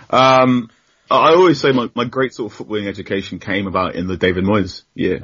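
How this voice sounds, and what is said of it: Manchester accent. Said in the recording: “As you can tell by my accent, I'm a hardcore Manchester United fan”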